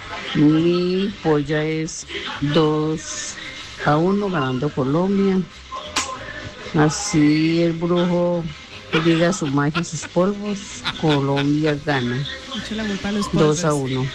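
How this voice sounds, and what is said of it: Spanish-from-Spain accent. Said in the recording (Spanish): “Y un acento españolete, está fuera del país nuestro oyente.”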